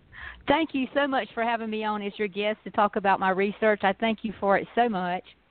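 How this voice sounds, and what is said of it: Southern US accent, South Georgia. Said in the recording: “southern accent ... this little accent is a little South Georgia country girl that grew up on a South Georgia farm”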